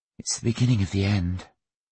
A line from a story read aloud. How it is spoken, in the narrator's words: Viola muttering